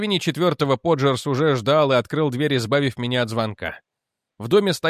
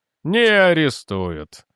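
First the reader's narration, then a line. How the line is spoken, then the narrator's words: Laughing. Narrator (Russian): рассмеялся Хейл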